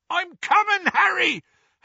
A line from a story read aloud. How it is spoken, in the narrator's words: Hagrid yelled from out of the darkness